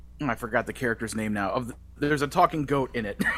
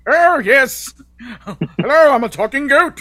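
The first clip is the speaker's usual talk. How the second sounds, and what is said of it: Weird cartoon character voice. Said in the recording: “the same voice he does for Clayface on the Harley Quinn series ... such a weird voice to be coming out of a little baby child goat”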